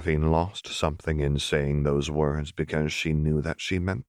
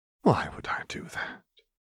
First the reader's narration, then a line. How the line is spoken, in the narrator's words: Renata breathed